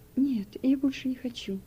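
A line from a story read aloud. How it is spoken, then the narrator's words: Quiet crying refusal. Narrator (Russian): отказался он и тихо заплакал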